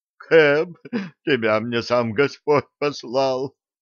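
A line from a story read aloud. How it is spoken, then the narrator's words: Gnome groaning. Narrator (Russian): простонал гном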